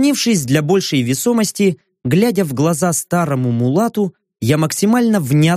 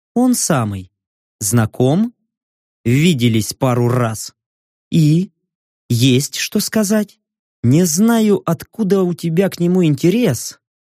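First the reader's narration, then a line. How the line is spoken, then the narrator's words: Slow speech. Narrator (Russian): медленно произнес я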